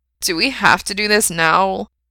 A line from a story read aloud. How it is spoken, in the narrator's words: he whines